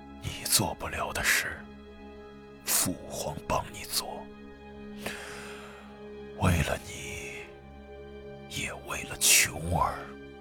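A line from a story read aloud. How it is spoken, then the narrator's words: Soft. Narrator (Chinese): 他轻声道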